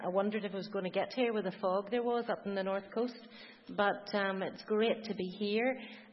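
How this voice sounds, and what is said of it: Belfast accent. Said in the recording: “As you'll gather from the accent, I'm a Belfast girl”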